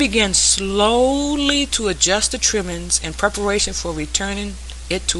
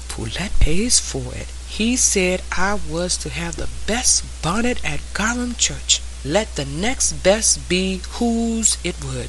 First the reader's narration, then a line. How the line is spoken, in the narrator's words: screwed up her mouth and shook her head and then whispered